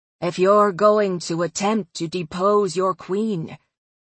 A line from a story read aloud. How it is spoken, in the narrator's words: Claudia said, her voice darker and rougher